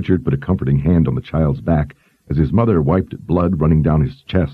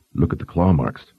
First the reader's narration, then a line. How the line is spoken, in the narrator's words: Richard whispered